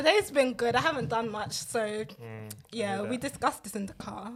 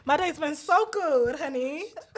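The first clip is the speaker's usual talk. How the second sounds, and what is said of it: Put-on accent. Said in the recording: “what we're not going to do is have this accent for the whole thing”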